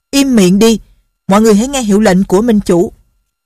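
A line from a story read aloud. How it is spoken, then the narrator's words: Angry group shout. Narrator (Vietnamese): Quần hùng không kìm được tức giận cùng quát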